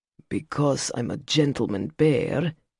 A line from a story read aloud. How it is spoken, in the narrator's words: he grumbled